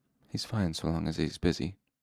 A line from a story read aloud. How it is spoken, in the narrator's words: Bast said softly